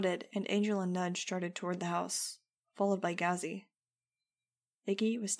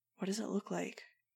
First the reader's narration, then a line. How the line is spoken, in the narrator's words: asked in a low voice